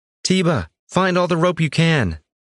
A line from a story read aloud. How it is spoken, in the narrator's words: she called out to him